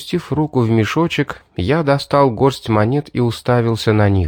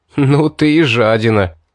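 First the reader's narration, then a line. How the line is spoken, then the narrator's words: Mumbled through laughter. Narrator (Russian): Расхохотавшись, я сквозь смех пробормотал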